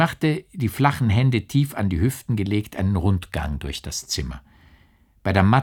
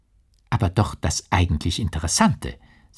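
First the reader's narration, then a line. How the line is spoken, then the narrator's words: Plain. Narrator (German): sagte Fräulein Bürstner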